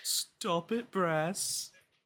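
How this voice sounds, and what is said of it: Put-on British accent. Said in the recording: “Great imitation ... I was going for, like, Wingardium Leviosa energy there ... Still is a good impression ... I'm good at sounding like British people”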